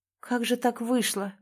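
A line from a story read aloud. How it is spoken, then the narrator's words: Sad musing. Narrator (Russian): грустно размышлял мужчина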